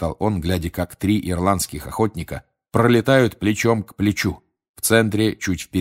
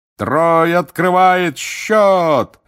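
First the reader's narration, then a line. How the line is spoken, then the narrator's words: Roaring. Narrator (Russian): взревел Бэгман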